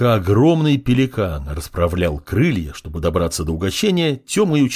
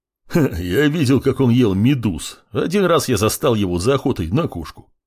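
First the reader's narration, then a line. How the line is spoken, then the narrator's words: Chuckling. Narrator (Russian): хохотнул Буран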